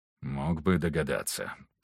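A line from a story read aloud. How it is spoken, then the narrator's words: Mutter. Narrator (Russian): пробормотал Виктор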